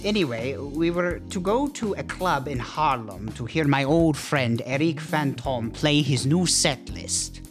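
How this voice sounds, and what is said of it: Speaks with a noticeable accent. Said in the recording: “when I say it in my accent, it sounds really weird”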